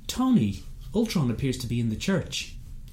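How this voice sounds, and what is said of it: Put-on Irish accent. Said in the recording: “I just did that for you in an Irish accent.”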